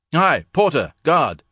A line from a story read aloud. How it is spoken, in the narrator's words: he bellowed